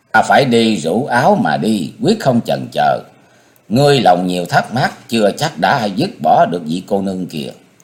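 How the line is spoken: Smiling. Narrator (Vietnamese): Sung đại sư mỉm cười

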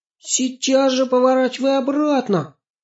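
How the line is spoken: Frightened scream. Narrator (Russian): испуганно закричала Аня

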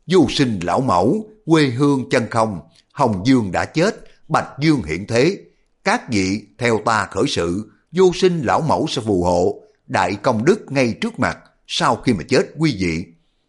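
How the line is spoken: Harsh growling cry. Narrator (Vietnamese): cái hán tử kia gằn giọng kêu lên

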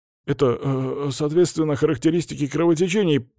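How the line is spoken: Student mumbling. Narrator (Russian): мямлил ученик из 2-го Б

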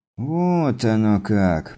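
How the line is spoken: Drawled. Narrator (Russian): протянул Стюарт

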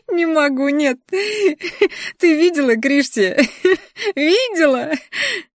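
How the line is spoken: Cackling laughter. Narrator (Russian): Хохотала эта мерзость

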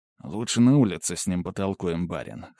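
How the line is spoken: Sullen mutter. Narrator (Russian): хмуро буркнул Владимир

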